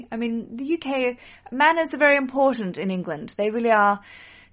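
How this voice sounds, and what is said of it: Australian accent. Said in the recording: “my accent is from Australia”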